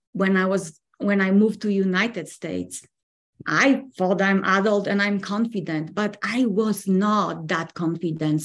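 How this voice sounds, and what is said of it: Non-native English accent. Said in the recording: “get really used to my own accent because before of that, I didn't know that I have accent... where is your accent from?”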